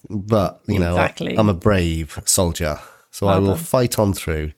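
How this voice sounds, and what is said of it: Congested, sniffly, sore-throated voice. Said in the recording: “I'm pretty ill today. I've got a sniffles, I've got a sore throat, I've got watery eyes, I've got a cold.”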